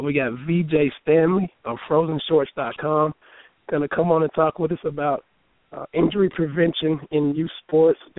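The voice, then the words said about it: Hoarse voice. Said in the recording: “My voice is struggling a little bit. Got a little hoarseness issue. Got a little bit of a cold, I guess, but more hoarse”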